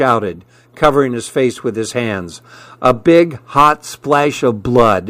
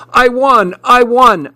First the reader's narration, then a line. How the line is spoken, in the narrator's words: I shouted